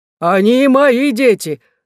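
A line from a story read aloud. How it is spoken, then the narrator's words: Exclamation. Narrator (Russian): воскликнул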